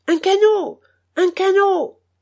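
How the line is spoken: Stout man shouting. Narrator (French): criait un gros monsieur

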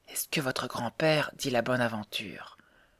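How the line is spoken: Frightened whisper. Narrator (French): demanda tout bas la pauvre Mary, presque effrayée

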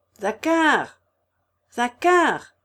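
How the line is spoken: Shouting. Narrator (French): cria-t-il

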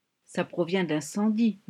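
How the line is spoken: Murmured. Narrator (French): murmura Ami

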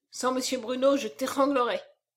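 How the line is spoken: Grumbled. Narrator (French): grommela Lecoq

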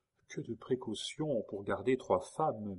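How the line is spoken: Murmuring. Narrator (French): murmura Geneviève

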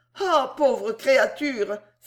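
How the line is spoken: Exclaiming. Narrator (French): s'écria Madame Rogers

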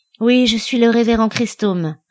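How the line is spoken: Weary man's reply. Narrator (French): répondit l'homme d'un ton las

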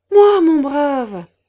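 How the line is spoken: Exclaimed. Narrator (French): s'écria le directeur

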